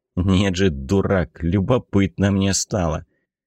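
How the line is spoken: Familiar grumbling. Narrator (Russian): Это ворчание было привычным

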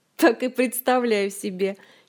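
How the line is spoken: Giggling. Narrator (Russian): хихикнул Жак

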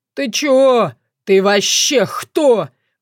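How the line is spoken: Humiliated howl. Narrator (Russian): взвыл Варк, уяснив, что его разом, одним движением и обездвижили, и унизили

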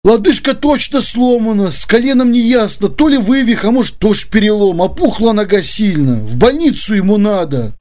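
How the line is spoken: Sad summary. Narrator (Russian): грустно подытожил Георгий

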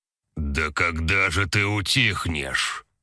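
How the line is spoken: Booming deep bass. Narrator (Russian): прогремел чей-то раскатистый бас

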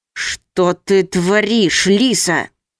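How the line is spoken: Hissed, man. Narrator (Russian): прошипел мужчина

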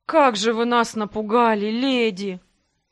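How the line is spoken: Heavy sigh. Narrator (Russian): Тяжело вздохнул под конец скелет

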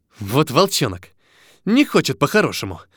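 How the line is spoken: Hissing. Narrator (Russian): прошипел Максим

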